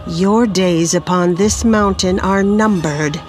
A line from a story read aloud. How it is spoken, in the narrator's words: he growled while fearfully backing away